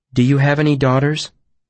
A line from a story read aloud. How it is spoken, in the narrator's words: I asked him calmly